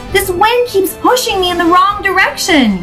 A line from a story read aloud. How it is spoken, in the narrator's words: yelled Daisy, scrunching up her face with effort